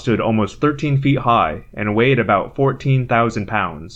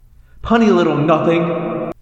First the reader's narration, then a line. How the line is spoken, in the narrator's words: Rachel cried, outraged